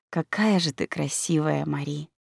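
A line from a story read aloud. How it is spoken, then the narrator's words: Quiet. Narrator (Russian): тихо сказал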